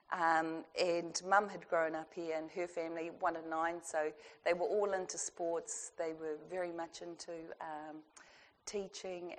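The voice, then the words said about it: Crackly voice from a cold. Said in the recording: “I've got a cold, so if I crackle it's because I need a drink or cold water”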